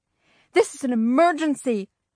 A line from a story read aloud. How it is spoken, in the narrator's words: Mom wailed